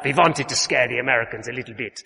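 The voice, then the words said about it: Bad Russian accent, Dracula-like. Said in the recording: “I can't do a Russian accent, it'll come out as Count Dracula. ... That's not Russian, is it, at all?”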